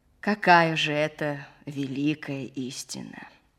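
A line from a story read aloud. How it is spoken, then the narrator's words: Plain. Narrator (Russian): спросил летчик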